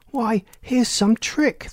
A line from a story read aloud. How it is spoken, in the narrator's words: the lady cried